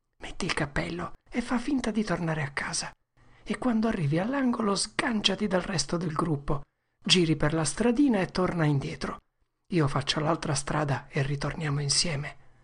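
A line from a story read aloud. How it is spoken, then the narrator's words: Whispering in ear. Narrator (Italian): Tom le sussurrò nell'orecchio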